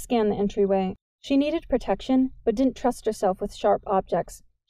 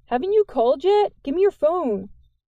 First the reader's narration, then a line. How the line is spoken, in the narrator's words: Jordan yelled out to the yard